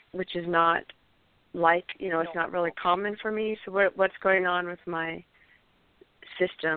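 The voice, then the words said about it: Voice audibly affected by a cold. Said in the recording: “You can hear I have a cold”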